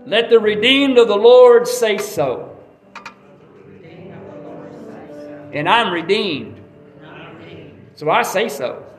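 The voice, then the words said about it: Country-sounding Southern speech. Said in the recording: “That sounds country, don't it?”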